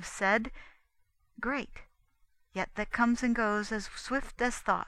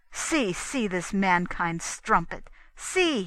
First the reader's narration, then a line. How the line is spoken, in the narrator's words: cried